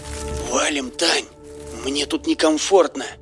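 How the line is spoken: Trembling whisper. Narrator (Russian): прошептал Серега дрожащим голосом

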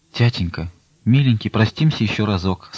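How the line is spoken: Faint, failing voice. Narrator (Russian): сказала упадавшим голосом Настя

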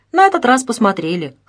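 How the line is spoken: Wry snort. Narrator (Russian): хмыкнул Лазарев

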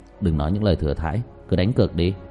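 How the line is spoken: Dry mocking smile. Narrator (Vietnamese): Diệp Thiếu Dương cười nhạt

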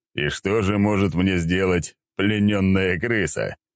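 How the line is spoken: Loud laughter. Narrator (Russian): хохотал я

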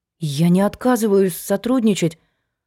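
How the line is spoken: Trembling babble. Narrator (Russian): пролепетала Сашка дрожащим голосом

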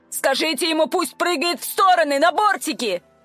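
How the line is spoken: Barked. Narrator (Russian): рявкнула я

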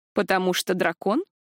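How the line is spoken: Snorting. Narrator (Russian): хмыкнул Ришел

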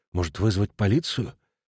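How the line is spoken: Frightened whisper. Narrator (Russian): Смотрительница туалета испуганно шепчет официантке

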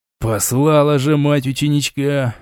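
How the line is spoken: Angry grumble. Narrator (Russian): Зло буркнул Дорит

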